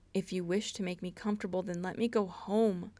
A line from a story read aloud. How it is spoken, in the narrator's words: Styles nearly begged